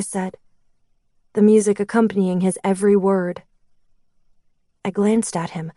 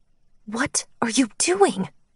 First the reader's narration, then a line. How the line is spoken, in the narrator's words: I hissed, wanting to smack him for being such an idiot